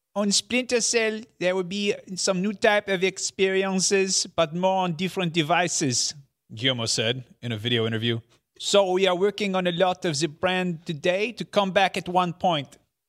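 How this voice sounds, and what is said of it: Put-on accent imitating the executive. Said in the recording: “You have to do the accent. ... Very perfect. Good. That very was all good. Problematic.”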